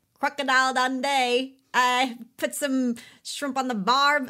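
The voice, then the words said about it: Poor imitation Australian accent. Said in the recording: “I'm never going to get the good Australian accent... teach me how to do a proper Australian accent”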